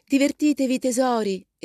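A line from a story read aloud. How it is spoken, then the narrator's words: Exclaimed. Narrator (Italian): esclamò la signora March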